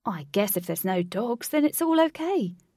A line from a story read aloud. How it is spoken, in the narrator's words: Link said with a chuckle